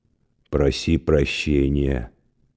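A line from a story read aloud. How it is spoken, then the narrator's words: Gloomy. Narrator (Russian): сказал Мировой мрачно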